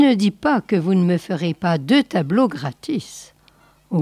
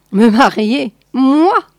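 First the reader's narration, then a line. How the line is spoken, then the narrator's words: Exclaiming. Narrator (French): s'écria Pierre Grassou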